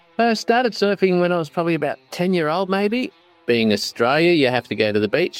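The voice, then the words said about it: Australian accent. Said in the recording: “I bet you could tell from his accent, but ... is Australian.”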